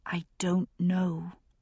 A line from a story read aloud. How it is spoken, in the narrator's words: I said at last, my own voice no more than a whisper